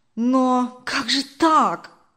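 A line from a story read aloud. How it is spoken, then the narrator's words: Confused exclamation. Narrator (Russian): Сбитый с толку, воскликнул Даниил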